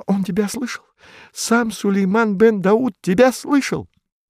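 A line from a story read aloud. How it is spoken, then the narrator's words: Exclamation. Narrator (Russian): Она воскликнула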